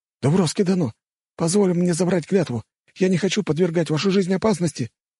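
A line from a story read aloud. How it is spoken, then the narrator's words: Pleading. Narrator (Russian): взмолился Ода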